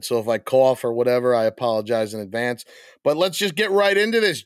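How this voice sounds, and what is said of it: Hoarse, failing voice. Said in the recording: “my voice is messed up... I'm losing my voice a little bit”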